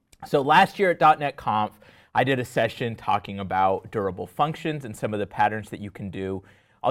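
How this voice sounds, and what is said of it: Voice strained from a cold. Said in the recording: “My voice is going to hold out for one more amazing session ... I'm getting over a little bit of a cold, if you can hear to my voice.”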